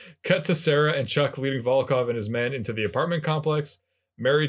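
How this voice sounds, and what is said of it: Usual voice. Nothing is said of it.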